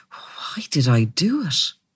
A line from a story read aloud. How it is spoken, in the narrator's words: murmured